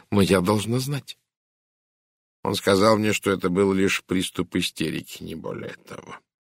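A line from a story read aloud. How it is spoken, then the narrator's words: Quiet. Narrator (Russian): тихо сказал Пуаро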